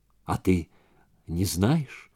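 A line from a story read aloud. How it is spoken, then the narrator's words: Soft. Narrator (Russian): Мягко произнес он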